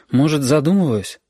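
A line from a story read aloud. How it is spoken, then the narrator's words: Mother sighing. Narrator (Russian): Мама вздохнула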